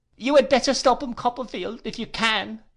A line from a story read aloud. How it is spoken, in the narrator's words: cried Uriah